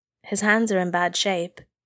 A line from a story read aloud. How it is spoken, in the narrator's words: Izuku said quietly